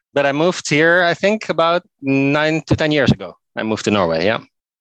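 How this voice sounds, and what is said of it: Dutch accent. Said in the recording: “I'm originally from Netherlands, as you can maybe hear from my accent”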